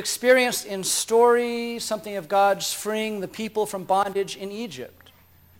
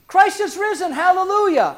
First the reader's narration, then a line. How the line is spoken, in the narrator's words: We've shouted